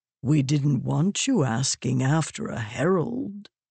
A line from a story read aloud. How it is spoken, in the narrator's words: Moraes said, his voice frustratingly calm